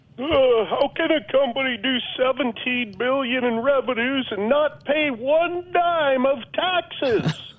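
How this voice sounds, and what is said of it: Imitates another person's voice. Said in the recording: “my Bernie Sanders impersonation. ... That was a good try”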